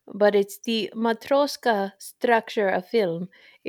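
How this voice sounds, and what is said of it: Bad fake Russian accent. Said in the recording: “I'm gonna try to say it with a Russian accent, and it's gonna be really bad.”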